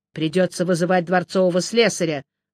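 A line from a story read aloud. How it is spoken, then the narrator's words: Gloomy snort. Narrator (Russian): мрачно хмыкнул я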